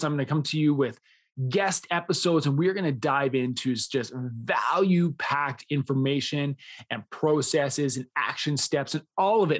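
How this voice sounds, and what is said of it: Excited, smiling voice. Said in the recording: “you can hear it in my voice. ... You can probably hear that I'm smiling right now”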